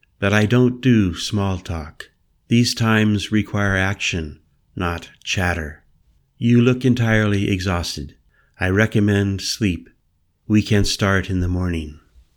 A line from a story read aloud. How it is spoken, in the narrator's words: said back evenly